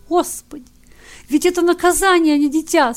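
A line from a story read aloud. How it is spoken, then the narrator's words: Tearful mother. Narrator (Russian): Сквозь слезы проговорила пришедшая в себя мать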